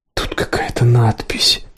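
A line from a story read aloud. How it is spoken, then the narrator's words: Shocked whisper. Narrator (Russian): прошептала потрясенная Сиена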